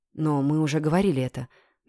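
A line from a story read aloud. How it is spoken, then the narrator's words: Gentle interruption. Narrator (Russian): мягко перебил Мистрей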